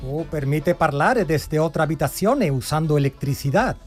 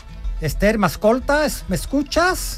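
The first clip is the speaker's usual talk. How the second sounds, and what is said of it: Shouting. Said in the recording (Spanish): “¿por qué estás gritando igual?”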